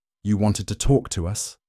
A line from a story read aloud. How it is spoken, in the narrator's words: she said in a calm voice